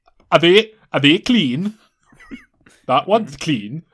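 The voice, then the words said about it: Poor put-on Welsh accent. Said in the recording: “that's the worst accent I've kind of... I can't do Welsh... it's getting worse”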